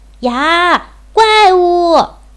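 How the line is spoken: Bird crying out in alarm. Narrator (Chinese): 天上有只鸟看见了胖小猪，也叫起来

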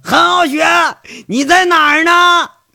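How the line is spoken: Frustrated shout. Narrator (Chinese): 他把这心里的积郁的那种闷气都给喊出来了

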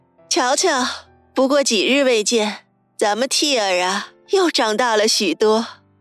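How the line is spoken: Laughing. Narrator (Chinese): 笑道

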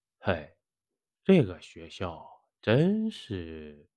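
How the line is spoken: Shivering sigh. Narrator (Chinese): 老王哆嗦了一下，叹道

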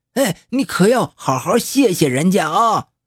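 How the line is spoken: Loud shout. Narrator (Chinese): 老黄大声喊着

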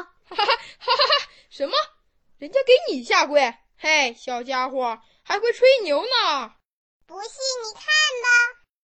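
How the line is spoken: Hearty laughter. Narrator (Chinese): 老虎不禁哈哈笑道

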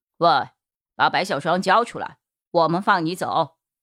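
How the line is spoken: Cold. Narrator (Chinese): 陈米林也冷冷说着

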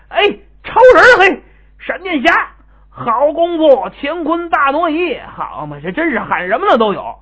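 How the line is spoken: Shouting. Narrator (Chinese): 还有的人干脆就喊出来了

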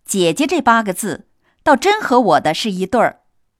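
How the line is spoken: Laughing. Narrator (Chinese): 宝玉笑道

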